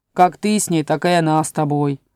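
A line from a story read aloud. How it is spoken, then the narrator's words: Muttered. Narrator (Russian): пробурчал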